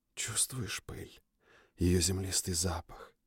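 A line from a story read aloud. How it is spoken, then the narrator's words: Whispering young woman. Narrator (Russian): прошептала девушка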